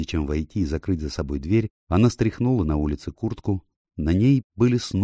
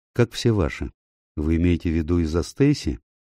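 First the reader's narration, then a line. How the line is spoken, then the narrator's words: Sighing. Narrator (Russian): Рэйчел вздохнула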